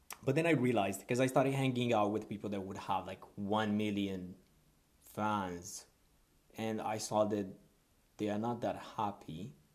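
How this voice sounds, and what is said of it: Non-native English accent. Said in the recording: “What is English? With my accent.”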